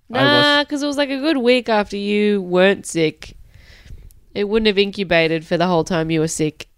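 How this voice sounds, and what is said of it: Sick, rough-sounding voice. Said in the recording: “I'm a bit sick. Sorry about the noise that my voice is making today... I just sound like shit.”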